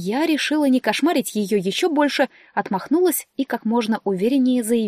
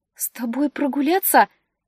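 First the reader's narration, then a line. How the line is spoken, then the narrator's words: Trembling voice. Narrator (Russian): дрожащим голосом спросила преданная Валина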